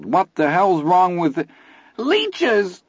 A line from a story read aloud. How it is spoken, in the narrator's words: Teddy screamed